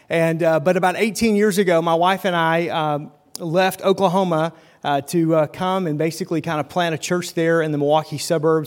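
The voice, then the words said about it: Slight Southern twang. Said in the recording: “I sound a lot less twang now than I did then, but it's still quite kind of there”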